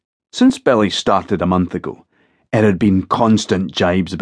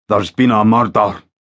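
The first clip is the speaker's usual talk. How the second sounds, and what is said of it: Thick put-on accent. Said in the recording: “He put on a thick accent.”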